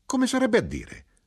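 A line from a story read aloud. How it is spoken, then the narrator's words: Knife-grinder exclaiming. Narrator (Italian): l'arrotino esclamò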